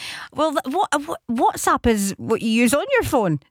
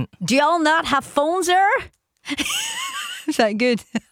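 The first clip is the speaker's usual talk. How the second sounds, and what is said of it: Put-on Virginian accent. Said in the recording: “Do it with a Virginian accent. What's your best Virginian accent?”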